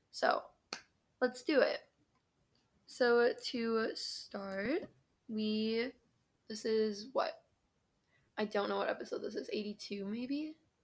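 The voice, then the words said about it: Sleepy, just-woke-up voice. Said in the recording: “Sorry if my voice sounds weird. I, like, literally just woke up”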